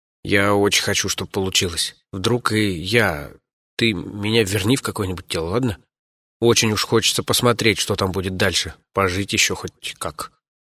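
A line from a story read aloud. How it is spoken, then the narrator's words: Quiet, very agitated. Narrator (Russian): сильно взволнован, тихонько сказал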